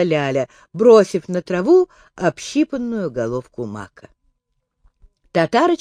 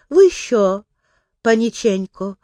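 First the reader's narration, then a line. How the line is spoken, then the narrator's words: Tender question. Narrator (Russian): ласково спросила Ляля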